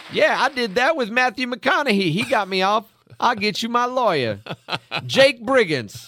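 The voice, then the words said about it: Imitates another person's voice. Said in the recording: “Samuel L. Jackson by ... That's not a good Sam Jackson. ... That was pretty good, no, Sam that Jackson. That will not be nominated for Best Impersonation.”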